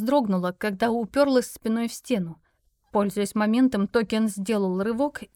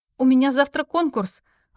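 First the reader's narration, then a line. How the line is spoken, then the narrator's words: Exclaimed. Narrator (Russian): воскликнула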